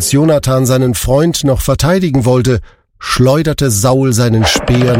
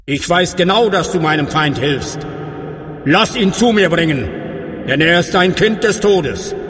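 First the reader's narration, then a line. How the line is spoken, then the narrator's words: Called out. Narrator (German): rief er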